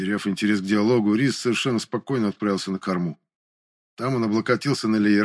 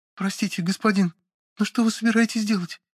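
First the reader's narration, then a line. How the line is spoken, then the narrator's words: Timid speaking. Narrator (Russian): заговорила робко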